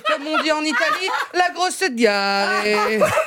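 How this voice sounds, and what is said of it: Poorly done fake Italian accent. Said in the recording (French): “un accent italien non maîtrisé ... l'accent ne passe pas”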